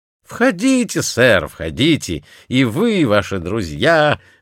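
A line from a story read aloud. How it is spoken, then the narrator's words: Plain. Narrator (Russian): ответил привратник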